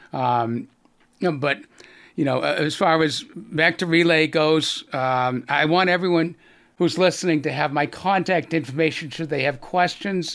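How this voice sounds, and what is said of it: Slight Boston accent. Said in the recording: “I still have a little bit of a Boston accent”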